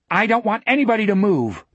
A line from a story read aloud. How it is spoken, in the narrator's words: the tall boy shouted up at the closed window